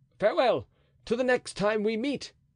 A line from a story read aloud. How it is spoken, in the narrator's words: cried Chatillon